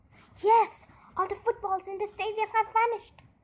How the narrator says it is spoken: exclaimed

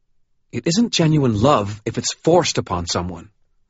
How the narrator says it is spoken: Murphy said, her tone harsh

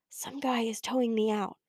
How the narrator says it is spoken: I whispered to Bree

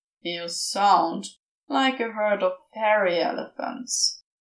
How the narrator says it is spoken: Crowley grumbled into his arm

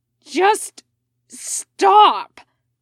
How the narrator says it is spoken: he said instead, the words more than half snarl

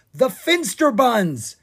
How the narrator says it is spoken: he cried

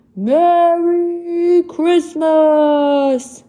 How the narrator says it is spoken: he shouted

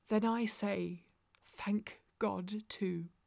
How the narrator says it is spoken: she whispered

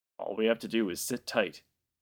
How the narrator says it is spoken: added hastily

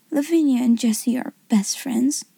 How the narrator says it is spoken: she said rather huskily

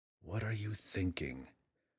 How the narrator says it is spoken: Drizzt muttered under his breath

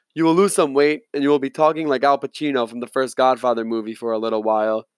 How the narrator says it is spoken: he laughed

